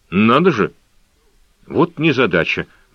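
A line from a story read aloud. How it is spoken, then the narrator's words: Muttered. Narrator (Russian): бормотал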